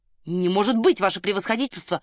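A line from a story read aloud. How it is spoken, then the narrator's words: Exclaiming. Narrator (Russian): воскликнул Гриднев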